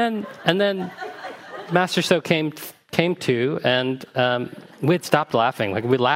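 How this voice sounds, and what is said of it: Usual voice. Nothing is said of it.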